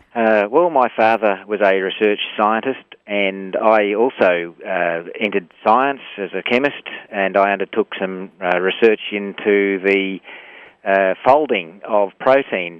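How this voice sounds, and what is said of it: Australian accent. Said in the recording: “that accent of yours ... my accents in Crocodile Dundee”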